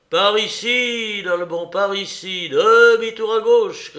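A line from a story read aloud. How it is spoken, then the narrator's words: Shouting. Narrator (French): cria-t-il à son compagnon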